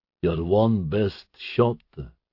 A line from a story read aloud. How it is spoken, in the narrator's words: Hegazi parroted, his voice echoing from the walls